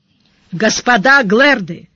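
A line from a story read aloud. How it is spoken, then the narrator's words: Loud, metallic commanding voice. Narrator (Russian): громко сказал Сварог, тщательно подпустив голос металла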